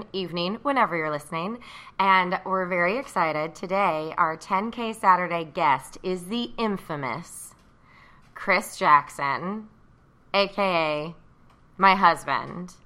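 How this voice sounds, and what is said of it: Bright, happy radio-host voice. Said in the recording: “radio voice ... It's my podcast voice ... you're so bright and happy”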